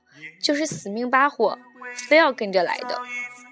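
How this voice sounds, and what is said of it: Northeastern Chinese dialect. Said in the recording (Chinese): “用东北话”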